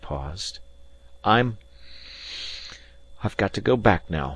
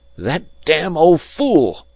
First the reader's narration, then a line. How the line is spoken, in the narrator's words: he cried wildly